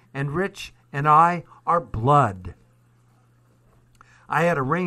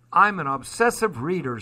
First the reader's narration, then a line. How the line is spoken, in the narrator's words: says Chris